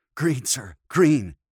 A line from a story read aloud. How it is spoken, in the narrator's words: he gasped